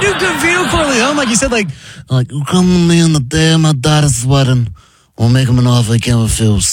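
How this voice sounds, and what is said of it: Usual voice. Nothing is said of it.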